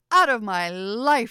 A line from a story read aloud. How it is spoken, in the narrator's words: She cried